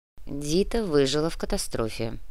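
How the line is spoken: Grumbled. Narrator (Russian): буркнул Кортес

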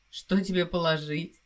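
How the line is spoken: Husband's laughing question. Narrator (Russian): смеясь спросил муж

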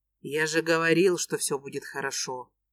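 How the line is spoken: Gentle smiling tone. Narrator (Russian): Мягко улыбается Костя

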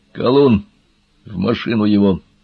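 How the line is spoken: Furious hoarse barking. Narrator (Russian): Разъяренный генерал не говорил, а хрипло вылаивал слова

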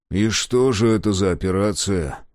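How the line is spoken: Sighing. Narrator (Russian): вздохнул Мемнон

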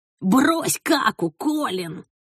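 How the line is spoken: Sugary, condescending whisper. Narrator (Russian): Слащаво, как будто разговаривал со слабоумным, нашептывал

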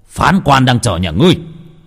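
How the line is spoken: Shouting. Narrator (Vietnamese): Đại sư quát lên

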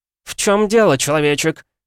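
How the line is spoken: Sarcastic demoness shouting. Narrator (Russian): язвительно выкрикнула демонесса

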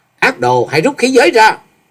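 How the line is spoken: Loud challenging shout. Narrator (Vietnamese): Chàng quát to

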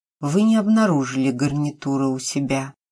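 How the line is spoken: Gentle interruption. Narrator (Russian): мягко прервал ее плач Сергей

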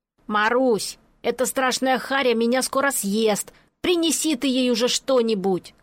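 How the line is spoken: Shouting from the bathroom. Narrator (Russian): крикнул Пончик из приоткрытой ванной

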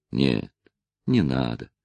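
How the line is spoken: Gentle. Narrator (Russian): сказал Натти ласково

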